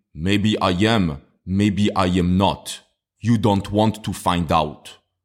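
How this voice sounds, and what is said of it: Poor put-on Russian accent. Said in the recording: “try to remember the Russian accents from the American movies ... I know this is a horrible Russian accent. I know I'm not good”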